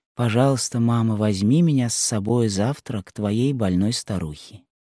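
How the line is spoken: Tender, encouraged child. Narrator (Russian): Ободрённая этим снисхождением, Жанна нежно сказала

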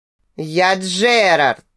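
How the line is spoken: Monstrous roar. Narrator (Russian): проревел монстр

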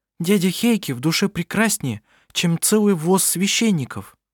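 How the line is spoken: Indignant. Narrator (Russian): возмущенно сказала она

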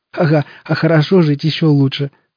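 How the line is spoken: Chuckling. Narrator (Russian): хохотнул Шурик

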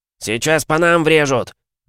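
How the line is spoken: Shouting. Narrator (Russian): крикнул Спиц

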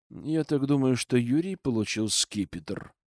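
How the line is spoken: Quiet, old man. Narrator (Russian): тихо сказал мне дед

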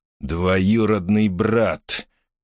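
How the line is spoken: Quiet, menacing. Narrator (Russian): тихим, угрожающим голосом произнес он

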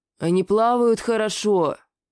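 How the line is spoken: Helpless mutter. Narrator (Russian): Совсем беспомощно пробормотал я

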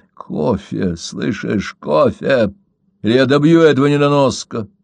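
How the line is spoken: Growled. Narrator (Russian): прорычал он

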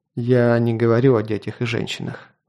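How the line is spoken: Sighing. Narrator (Russian): вздохнул я

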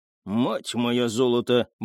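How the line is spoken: Muttered. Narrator (Russian): буркнул он

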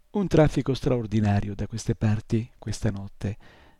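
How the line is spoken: Croaking voice. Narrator (Italian): disse con la sua voce crocchiante

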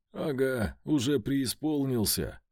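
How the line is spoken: Snorting scoff. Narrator (Russian): Хмыкнул я

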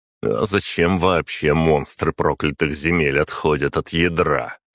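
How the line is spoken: Snorting. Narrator (Russian): хмыкнул я

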